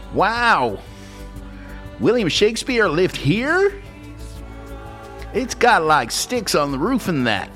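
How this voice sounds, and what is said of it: Bad put-on American accent. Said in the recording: “that's really bad American accent.”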